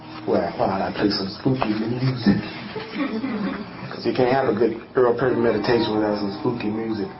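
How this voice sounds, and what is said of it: Put-on radio DJ voice. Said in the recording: “I got the best DJ voice you've ever heard ... listen to my DJ voice”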